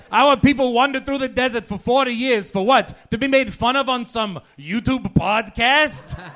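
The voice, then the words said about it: Old Jewish grandfather character voice. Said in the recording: “voices of people that don't exist. Like, I don't know, like a Jewish grandfather”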